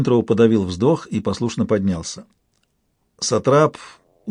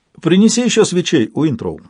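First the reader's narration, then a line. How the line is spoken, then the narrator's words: Cheerful command. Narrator (Russian): весело приказал Кеннет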